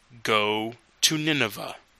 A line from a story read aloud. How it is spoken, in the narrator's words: God said